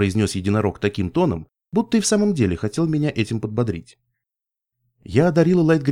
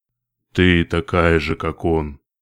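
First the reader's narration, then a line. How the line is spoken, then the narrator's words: Sudden low bass, manticore. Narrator (Russian): вдруг сказала мантикора низким басом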